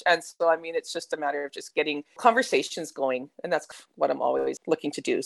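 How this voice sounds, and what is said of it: Canadian accent, not Australian. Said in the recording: “You can tell by the accent, though, I'm like Canadian ... her really non-existent Aussie accent”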